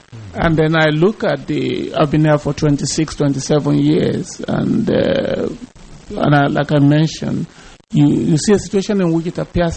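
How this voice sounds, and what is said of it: Foreign accent. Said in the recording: “from my accent, you realize that I'm from somewhere far away”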